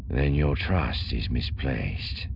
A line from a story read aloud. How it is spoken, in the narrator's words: Thrawn said, his voice suddenly dark